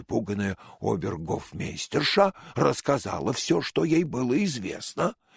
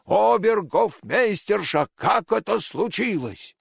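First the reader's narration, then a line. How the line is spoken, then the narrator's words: Angry loud shouting king. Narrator (Russian): Разгневанный король громко закричал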